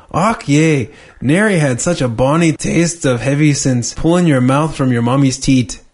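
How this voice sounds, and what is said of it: Put-on Scottish accent. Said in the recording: “Can you do a Scottish accent? ... horrible would probably be better than mine”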